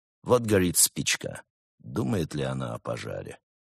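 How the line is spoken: Gloomy. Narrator (Russian): мрачно произнес крот

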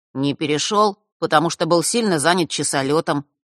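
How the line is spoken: Plain. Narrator (Russian): снова ответил Ник

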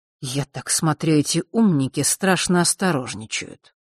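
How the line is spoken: Muttering to himself. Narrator (Russian): пробормотал он как бы для себя

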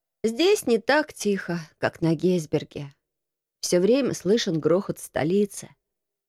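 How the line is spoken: Sleepy voice, from corner. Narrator (Russian): сказал сонным голосом Марко из своего угла

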